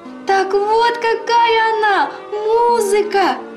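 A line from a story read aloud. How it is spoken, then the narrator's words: Squeaky mice voices. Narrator (Russian): пропищали мышки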